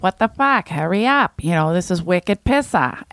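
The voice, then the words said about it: Put-on Boston accent. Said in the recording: “Boston's annoying... And I can annoy people with it... if you don't do your whole act with that accent”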